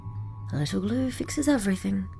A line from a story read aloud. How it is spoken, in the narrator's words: she said under her breath